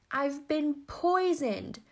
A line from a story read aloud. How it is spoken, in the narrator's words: spluttered the manly lover